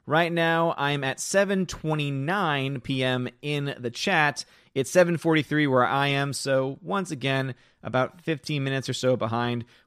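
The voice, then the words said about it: Hoarse, fading voice. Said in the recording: “losing my voice already”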